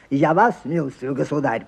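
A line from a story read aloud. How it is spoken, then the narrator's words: Curt, harsh voice. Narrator (Russian): прибавил он тем же отрывистым и резким голосом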